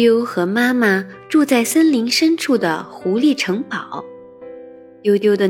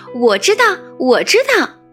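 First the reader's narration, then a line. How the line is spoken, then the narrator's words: Loud. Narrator (Chinese): 它都会大声地说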